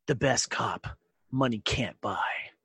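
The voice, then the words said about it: Dramatic movie trailer voice. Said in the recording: “in my best movie trailer voice”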